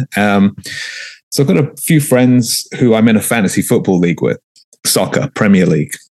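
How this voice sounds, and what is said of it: London English accent. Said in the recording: “you can probably tell from my accent, I'm not from here ... I was born and raised in London, England”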